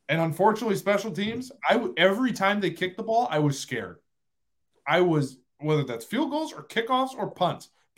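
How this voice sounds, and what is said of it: Fired up, agitated voice. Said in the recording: “If you can tell I'm fired up and you can hear it in my voice”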